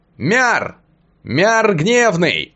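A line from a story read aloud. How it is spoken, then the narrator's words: Shouted. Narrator (Russian): прокричал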